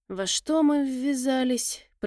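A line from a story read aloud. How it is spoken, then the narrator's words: Muttered. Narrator (Russian): пробормотал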